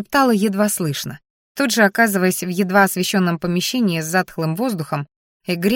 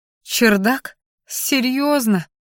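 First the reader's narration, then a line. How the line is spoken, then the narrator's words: Groaning. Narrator (Russian): простонала я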